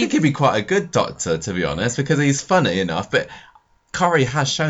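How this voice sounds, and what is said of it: Usual voice. Nothing is said of it.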